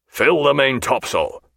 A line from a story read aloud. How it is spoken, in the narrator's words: said Jack in a strong, displeased voice